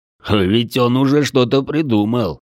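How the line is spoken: Chuckling. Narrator (Russian): хохотнул Дрой

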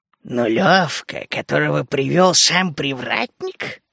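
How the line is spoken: Hoarse chuckle. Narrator (Russian): хохотнул хриплый голос сзади

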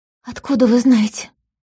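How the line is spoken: Hoarse question. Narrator (Russian): охрипшим голосом спросила Полина

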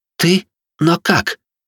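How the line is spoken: Strained, forced out, girl. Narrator (Russian): девушка смогла выдавить из себя

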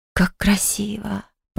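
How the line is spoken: Whisper. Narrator (Russian): прошептала я

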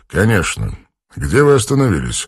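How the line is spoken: Calm, hiding agitation. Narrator (Russian): спокойно спросил Данросс, хотя сердце бешено колотилось

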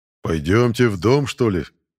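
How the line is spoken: Booming rumble. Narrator (Russian): прогудел здоровяк

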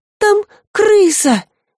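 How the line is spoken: Pitiful embarrassed squeak. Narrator (Russian): жалко пискнула девочка, чувствуя себя полной дурой

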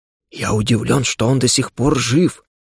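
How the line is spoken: Quiet. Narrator (Russian): тихо произнес дух после осмотра ран уголька

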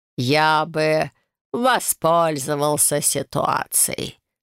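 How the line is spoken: Close, amused snort. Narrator (Russian): хмыкнул граф, наклонившись ко мне

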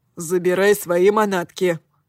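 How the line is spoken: Muttered. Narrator (Russian): буркнул он

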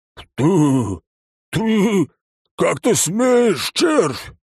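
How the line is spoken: Roared. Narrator (Russian): взревел он

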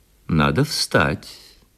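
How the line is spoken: Soft and gentle. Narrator (Russian): прибавил он мягко и ласково

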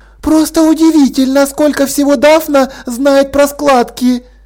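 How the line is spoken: Admiring woman's exclamation. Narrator (Russian): Восхищенно воскликнула одна из женщин

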